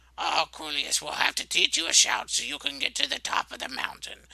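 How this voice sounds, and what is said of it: Old man character voice. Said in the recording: “old man voice”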